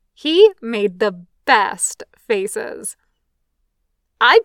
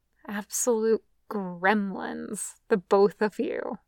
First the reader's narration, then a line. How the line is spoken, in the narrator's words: her mother mutters